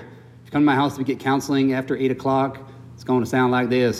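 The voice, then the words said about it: Southern US accent. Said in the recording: “You might not hear my Southern accent any longer. Sometimes it comes out. When I'm tired.”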